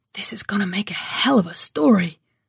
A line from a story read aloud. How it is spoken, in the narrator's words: Joe said, whispering at me in the dark